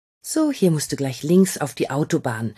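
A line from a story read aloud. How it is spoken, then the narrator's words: Calm. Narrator (German): sagt Marie, die immer noch ruhig bleibt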